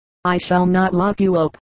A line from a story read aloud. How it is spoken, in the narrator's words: said